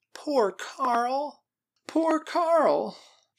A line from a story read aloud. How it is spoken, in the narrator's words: moaned